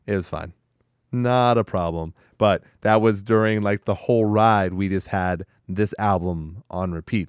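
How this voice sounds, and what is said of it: Hoarse, nearly lost voice. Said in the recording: “my voice is almost gone”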